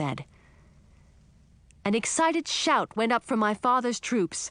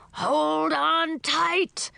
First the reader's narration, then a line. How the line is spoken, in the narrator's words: bellowed Grumblebelly